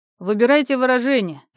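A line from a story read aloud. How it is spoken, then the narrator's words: Barking. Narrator (Russian): рявкнул сын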